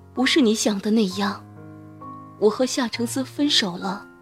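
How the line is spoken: Murmuring. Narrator (Chinese): 他喃喃说道

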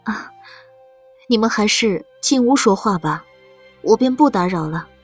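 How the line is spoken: Gentle, smiling. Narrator (Chinese): 周夫人先笑了笑，柔声道

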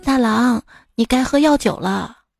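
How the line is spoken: Gentle speech. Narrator (Chinese): 金莲温柔地对丈夫说

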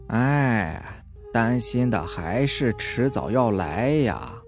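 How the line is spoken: Sighing murmur. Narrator (Chinese): 外婆 叹息了一声，喃喃说道

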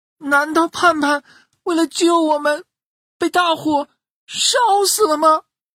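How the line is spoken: Chicks wailing, crying. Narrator (Chinese): 小鸡宝宝们一听，哇的都哭了起来

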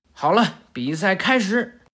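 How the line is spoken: Shouting. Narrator (Chinese): 长十郎喊道

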